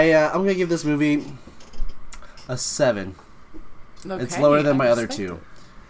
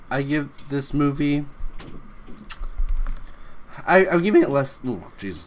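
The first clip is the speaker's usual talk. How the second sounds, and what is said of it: Voice cracks mid-sentence. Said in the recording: “My voice cracked. I'm entering puberty.”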